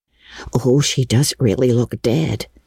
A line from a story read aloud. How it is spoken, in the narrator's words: whispered Ruby Gillis nervously